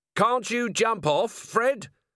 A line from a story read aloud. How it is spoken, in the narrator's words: Vimes yelled as he ran along behind